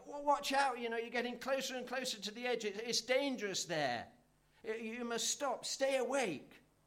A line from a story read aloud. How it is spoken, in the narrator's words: shout out to him